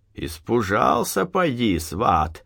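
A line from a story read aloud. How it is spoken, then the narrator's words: Laughing. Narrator (Russian): засмеялся Захар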